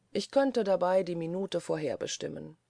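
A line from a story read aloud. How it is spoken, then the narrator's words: Calm. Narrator (German): sagte Schwibus ruhig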